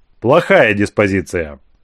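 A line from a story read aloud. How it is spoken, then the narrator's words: Sigh. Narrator (Russian): вздохнул император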